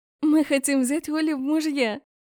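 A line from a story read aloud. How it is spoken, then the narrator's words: Giggling. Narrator (Russian): хихикнула Эря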